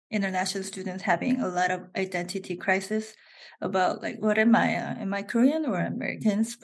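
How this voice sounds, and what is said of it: Korean accent in English. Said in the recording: “I have Korean accent”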